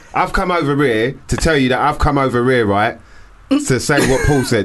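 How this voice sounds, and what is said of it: Put-on Essex accent. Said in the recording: “I'm going to do my best Essex accent”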